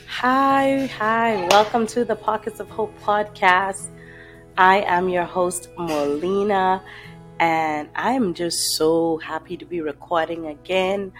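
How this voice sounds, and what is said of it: Raspy, dry, hoarse voice. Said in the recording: “my voice sounds a little raspy, dry, and hoarse, ... that's because I am recovering from this cough and cold”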